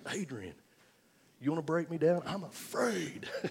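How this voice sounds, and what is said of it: Weak imitation of Rocky's voice. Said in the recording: “I'm trying to do my best Rocky imitation. I'm not very good at it.”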